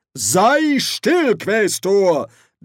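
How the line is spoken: Thundering. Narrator (German): donnerte Ridcully

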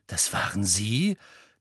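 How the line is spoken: Gasp. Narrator (German): keuchte Harry

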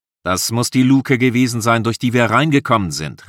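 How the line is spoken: Calling out. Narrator (German): rief der Lare

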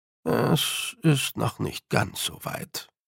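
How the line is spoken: Murmur. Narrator (German): murmelte sie Fion zu

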